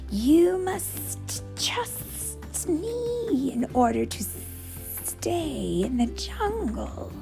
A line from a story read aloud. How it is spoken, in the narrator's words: hissed the snake